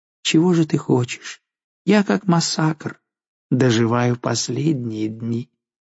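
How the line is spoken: Sad. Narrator (Russian): Жанна грустно отвечала ей

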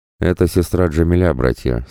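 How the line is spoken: Plain. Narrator (Russian): сказал он

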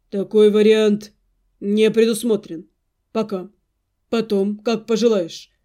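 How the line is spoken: Calm objection. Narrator (Russian): спокойно возразил Арина

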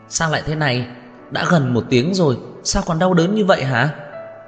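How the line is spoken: Agitated, panicked voice. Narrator (Vietnamese): giọng nói mất bình tĩnh của Lục Cẩn Niên

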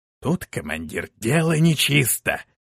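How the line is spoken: Whisper. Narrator (Russian): произнес шепотом Шорх

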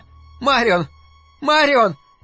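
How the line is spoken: Shouting. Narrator (Russian): закричала Луиза

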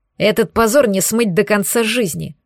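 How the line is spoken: Growl in face. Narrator (Russian): прорычал мне в лицо

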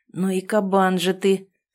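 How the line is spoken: Hoarse wheeze. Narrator (Russian): прохрипел Артем

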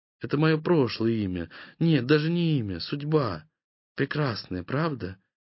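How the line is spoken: Slightly sad, smiling. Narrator (Russian): Чуть печально улыбнулась она

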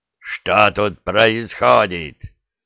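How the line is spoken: Growl. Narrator (Russian): прорычал наместник

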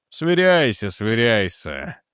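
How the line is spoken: Grumbled. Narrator (Russian): буркнул Дженкинс

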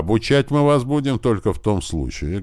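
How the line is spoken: Loud. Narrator (Russian): громко произнес Крот

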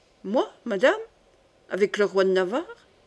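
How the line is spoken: Plain. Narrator (French): dit Demouy

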